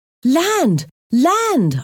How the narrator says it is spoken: shouted excitedly

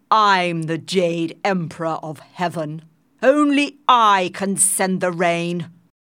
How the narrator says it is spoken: he shouted angrily

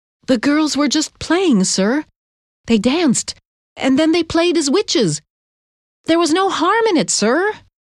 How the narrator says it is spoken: Tituba stood up nervously, wringing her hands, and said

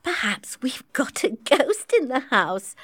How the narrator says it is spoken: said Robert, laughing

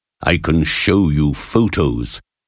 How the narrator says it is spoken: he said

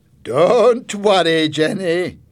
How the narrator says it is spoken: laughed

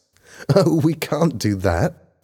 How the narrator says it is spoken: laughed Helen

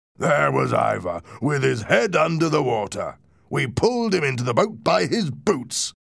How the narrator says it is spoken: exclaimed the first man

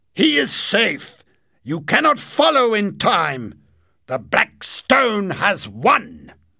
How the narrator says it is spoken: shouted

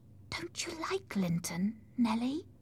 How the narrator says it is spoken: Then, in a whisper, she added

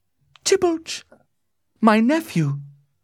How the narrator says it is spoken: she cried

